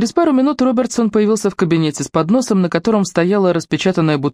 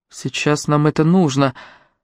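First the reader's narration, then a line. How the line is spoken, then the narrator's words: Soft. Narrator (Russian): мягко произнес Артур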